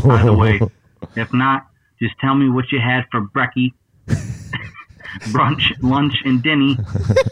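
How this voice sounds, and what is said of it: Put-on Australian accent. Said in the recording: “That was a good Aussie accent... That was really good. I thought it was a little bit Kiwi for a while.”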